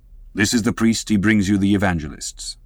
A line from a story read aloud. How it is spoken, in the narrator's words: said Don Sebastian gravely